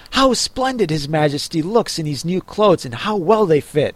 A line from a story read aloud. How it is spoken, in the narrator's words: everyone cried out